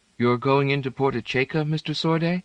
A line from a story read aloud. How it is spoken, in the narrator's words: Piera asked in a ladylike tone